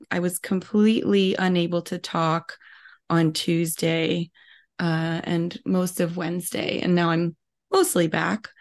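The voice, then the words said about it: Voice sounds weird, not fully recovered. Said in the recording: “you can probably tell from my voice, I'm still recovering from a cold ... you'll notice I'm sounding weird”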